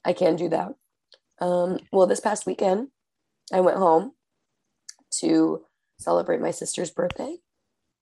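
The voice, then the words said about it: Very hoarse, rough voice. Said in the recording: “She sounds like a horse died in her throat today ... A small horse ... you sound like a small horse died in your throat”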